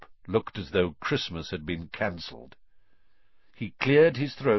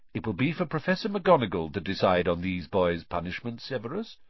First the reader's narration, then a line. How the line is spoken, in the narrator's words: said Dumbledore calmly